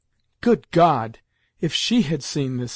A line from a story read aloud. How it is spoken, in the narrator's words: exclaimed Grandmamma, wiping away her tears